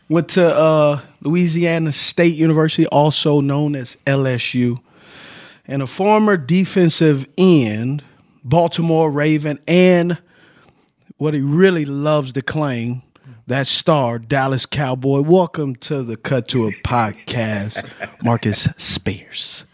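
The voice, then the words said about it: Put-on Louisiana accent. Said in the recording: “I'm impressed by your Louisiana accent, though. That was dope.”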